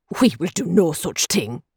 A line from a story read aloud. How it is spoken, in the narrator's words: he snapped